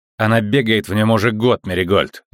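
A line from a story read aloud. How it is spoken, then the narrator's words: Curt angry remark. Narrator (Russian): зло бросил Ламберт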